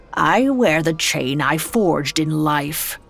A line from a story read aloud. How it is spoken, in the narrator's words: he said grimly